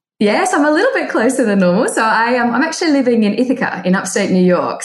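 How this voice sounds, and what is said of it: Australian accent. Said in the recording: “I detect an accent... from Australia”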